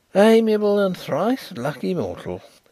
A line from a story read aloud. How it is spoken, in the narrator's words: sighed Mr